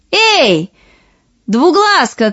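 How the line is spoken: Two voices shouting. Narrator (Russian): крикнули обе сестры

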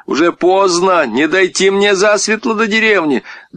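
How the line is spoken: Shouting after someone. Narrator (Russian): Всеволод крикнул ему вдогонку

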